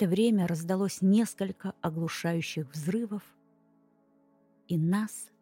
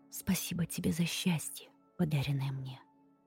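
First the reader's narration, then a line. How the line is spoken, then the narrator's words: Whispered reply. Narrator (Russian): прошептала в ответ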